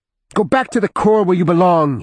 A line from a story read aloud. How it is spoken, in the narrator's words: he cried